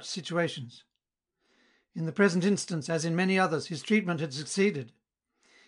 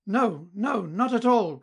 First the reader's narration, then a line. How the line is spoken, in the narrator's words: cried Mignon, and insisted on it with such earnestness